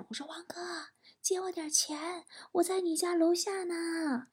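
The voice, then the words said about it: Very quiet, hushed voice. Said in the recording (Chinese): “我特别小声”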